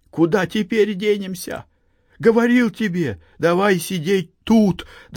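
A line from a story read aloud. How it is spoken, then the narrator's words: Trembling voice, near tears. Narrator (Russian): дрожащим голосом, чуть не плача, проговорил Андрей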